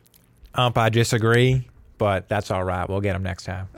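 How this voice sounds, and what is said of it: Put-on Southern American accent. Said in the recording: “I just gave him a Southern accent”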